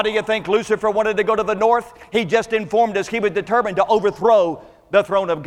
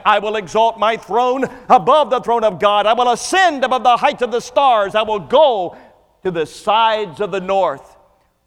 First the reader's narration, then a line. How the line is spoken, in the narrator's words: five times exclaimed